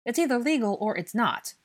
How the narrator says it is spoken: Blaze said impatiently

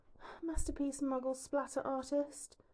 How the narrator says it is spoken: Hermione murmurs around the rim of her cup, unsure what to make of this response

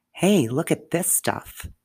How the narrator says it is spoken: exclaimed

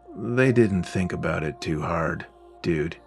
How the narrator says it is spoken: Vera groaned

